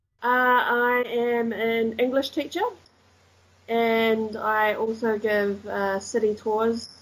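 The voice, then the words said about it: Slight New Zealand accent. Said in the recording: “I detect a hint of an accent that isn't fully German ... I'm from New Zealand”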